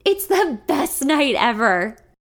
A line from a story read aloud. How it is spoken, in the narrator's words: yell back